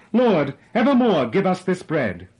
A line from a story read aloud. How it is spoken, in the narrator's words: some of his hearers exclaimed